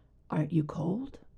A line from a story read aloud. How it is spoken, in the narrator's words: he says quietly